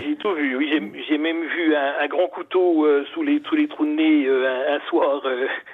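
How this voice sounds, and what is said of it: Slight Burgundy regional French accent. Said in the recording (French): “vous avez un petit accent quand même hein, de Dijon ... un petit peu un accent bourguignon”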